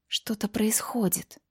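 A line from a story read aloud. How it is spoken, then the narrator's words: Whisper. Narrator (Russian): прошептала Элизабет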